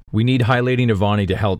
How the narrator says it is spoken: Shallan says

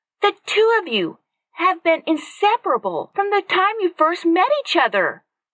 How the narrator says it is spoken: Katie yelled over Zach's obvious objections

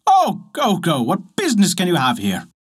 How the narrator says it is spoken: a grand servant, who, without hearing what the poor people had to say, exclaimed

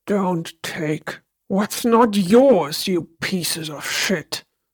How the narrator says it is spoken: the man bellowed

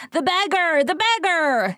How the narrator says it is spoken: yelled the crowd

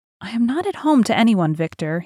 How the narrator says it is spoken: he said with a sigh

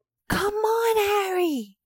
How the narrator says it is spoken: Hermione screamed

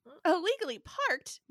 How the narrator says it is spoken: blurt

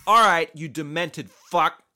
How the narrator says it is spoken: he shouted

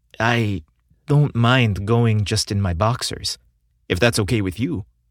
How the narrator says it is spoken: Jake said

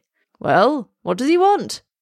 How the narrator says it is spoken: shouts the dealer

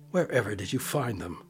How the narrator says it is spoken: asked Helen crossly

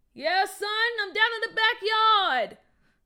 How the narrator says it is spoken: his dad yelled back

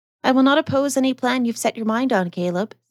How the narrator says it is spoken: said Mrs

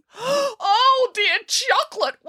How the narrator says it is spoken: wailed Boris

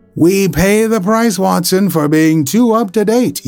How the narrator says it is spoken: cried

